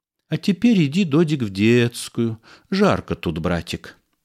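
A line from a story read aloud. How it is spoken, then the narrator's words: Gentle, affectionate. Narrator (Russian): дипломатичная Марья … сказала ласково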